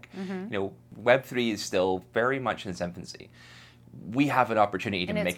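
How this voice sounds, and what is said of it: Muddled Irish accent. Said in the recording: “Irish, but sometimes has, I mean, a muddled accent”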